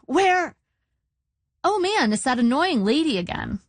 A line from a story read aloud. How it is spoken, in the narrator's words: I said brightly